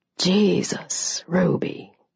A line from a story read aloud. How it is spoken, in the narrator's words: he said quietly